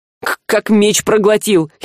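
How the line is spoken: Giggling. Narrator (Russian): хихикнул Жар

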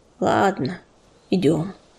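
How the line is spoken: Deep sigh, then spoken. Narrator (Russian): Он глубоко вздохнул и сказал

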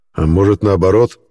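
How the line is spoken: Angry. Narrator (Russian): зло произнес Черес

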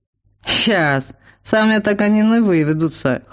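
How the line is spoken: Snort. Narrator (Russian): хмыкнул селянин

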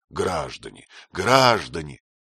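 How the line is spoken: Hoarse voice. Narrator (Russian): повторяя хриплым голосом

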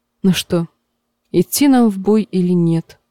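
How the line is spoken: Plain. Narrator (Russian): спросила Дэнни

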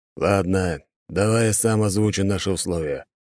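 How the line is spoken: Calm deep bass. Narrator (Russian): пробасил он спокойно

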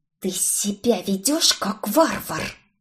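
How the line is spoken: Hiss. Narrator (Russian): прошипела я

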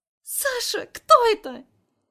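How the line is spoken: Ear-splitting shriek. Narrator (Russian): Взвизгивает так, что у меня уши закладывает

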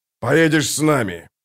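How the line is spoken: Hoarse rasp. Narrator (Russian): прохрипел ближайший из них

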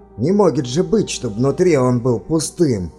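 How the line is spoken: Exclaiming miner. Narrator (Russian): воскликнул один из горняков

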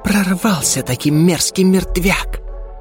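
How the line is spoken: Disappointed hiss. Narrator (Russian): Разочарованно прошипела Кера

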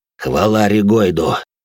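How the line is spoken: Relieved sigh. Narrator (Russian): Вояка облегченно вздохнул

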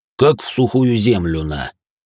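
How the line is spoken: Breathy exhale. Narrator (Russian): выдохнул Грохот

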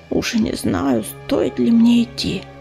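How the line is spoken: Worried muttering. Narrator (Russian): озабоченно бормотала Листвичка

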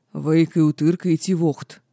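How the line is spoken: Growling. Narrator (Russian): прорычал напоследок папа

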